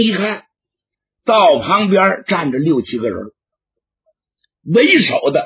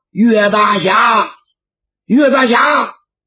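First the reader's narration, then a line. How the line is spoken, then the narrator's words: Calling out. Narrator (Chinese): 有人喊他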